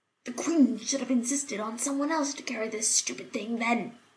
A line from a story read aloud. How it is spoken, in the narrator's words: the other one hissed